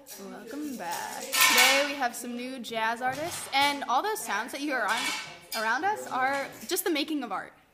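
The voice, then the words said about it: Smooth slow jazz radio host voice. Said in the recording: “slow jazz radios where they're like”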